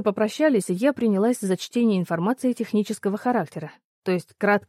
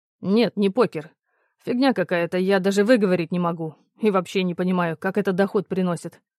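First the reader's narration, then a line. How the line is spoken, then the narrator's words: Mildly irritated grumble. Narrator (Russian): с легким раздражением проворчал Кирьянов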